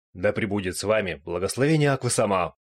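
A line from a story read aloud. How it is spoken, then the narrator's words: Cheerful laughing. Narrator (Russian): Зеста весело рассмеялся напоследок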